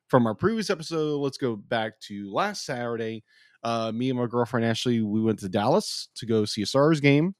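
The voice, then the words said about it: Cracked, congested voice. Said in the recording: “I had a sinus infection. Obviously, you can hear my voice. My voice is still kind of cracked.”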